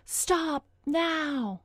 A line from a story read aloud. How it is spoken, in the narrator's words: screaming voices